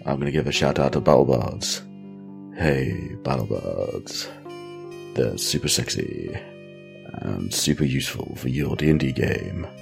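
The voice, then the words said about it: Sick, husky voice. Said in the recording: “I'm super ill, so my voice is probably the sexiest it's ever been.”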